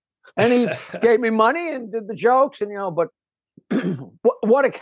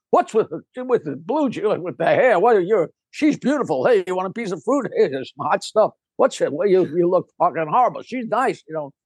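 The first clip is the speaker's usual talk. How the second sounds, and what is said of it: Rodney Dangerfield impression. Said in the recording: “that impression is fantastic ... it's not a good impression ... Anybody that does Rodney sounds like Rodney until you hear Rodney”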